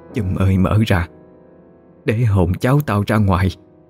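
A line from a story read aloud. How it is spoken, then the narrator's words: Muttered. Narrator (Vietnamese): lẩm bẩm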